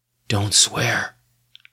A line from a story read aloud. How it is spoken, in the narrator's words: a voice whispered in his ear